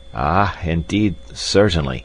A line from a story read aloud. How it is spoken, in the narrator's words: stammered the doctor